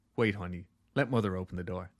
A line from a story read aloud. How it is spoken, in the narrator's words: says calmly